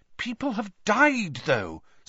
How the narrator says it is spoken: said Hermione in a worried voice

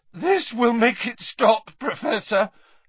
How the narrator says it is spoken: Harry said, his voice cracking

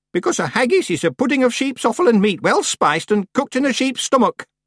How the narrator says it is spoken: said Miss Treason sharply

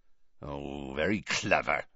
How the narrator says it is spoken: growled Hagrid

